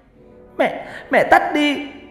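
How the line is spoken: Girl suddenly screaming. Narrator (Vietnamese): con bé Nhi bỗng hét lên

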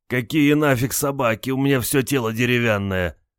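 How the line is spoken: Groan. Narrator (Russian): Простонал Олег

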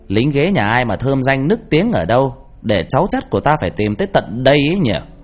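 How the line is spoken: Loud ringing voice. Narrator (Vietnamese): Mẹ tôi đập tay xuống đất rồi nói lớn bằng giọng sang sảng

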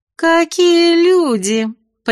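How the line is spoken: Sickly sweet singsong voice. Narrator (Russian): приторно-сладким голоском пропели за моей спиной

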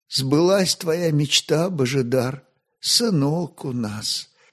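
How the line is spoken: Exhausted whisper. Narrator (Russian): искусанными устами прошептала роженица

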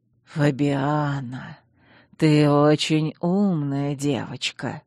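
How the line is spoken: Ingratiating, insinuating. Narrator (Russian): вкрадчиво произнес Чейз

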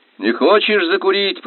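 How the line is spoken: Shouted. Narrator (Russian): прокричал

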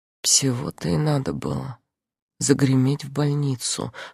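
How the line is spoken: Whisper. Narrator (Russian): шепотом говорю я

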